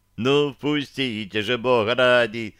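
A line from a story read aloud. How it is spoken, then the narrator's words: Pleading shout. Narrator (Russian): умоляюще закричал Рейн-Иван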